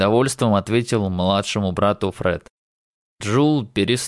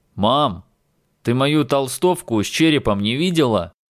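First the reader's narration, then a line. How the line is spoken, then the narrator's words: Loud question through door. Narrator (Russian): Громко спросил Адам, прямо за дверью в спальню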